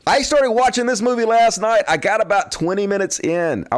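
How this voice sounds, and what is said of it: Zany carnival barker voice. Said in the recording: “do it like a carnival barker with a zany fucking voice you use ... I have to kind of do the show in a zany carnival barker voice ... I do the voice.”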